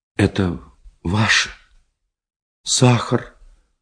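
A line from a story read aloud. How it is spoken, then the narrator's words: Quiet, holding back tears. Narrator (Russian): Тихо сказала, скрыть слезы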